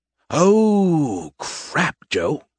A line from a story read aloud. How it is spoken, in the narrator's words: Skippy groaned